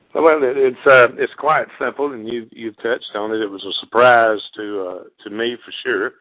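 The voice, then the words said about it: Mississippi Southern accent. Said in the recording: “the accent gives everything away here, Mississippi”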